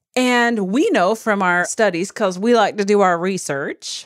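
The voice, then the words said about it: Put-on Southern US accent. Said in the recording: “a little accent in there... I like to be a Southern person when I talk about research”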